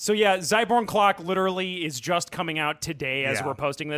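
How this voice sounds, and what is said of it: Usual voice. Nothing is said of it.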